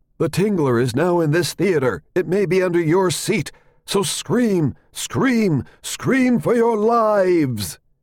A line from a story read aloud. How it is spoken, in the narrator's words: a narrator on the soundtrack cried out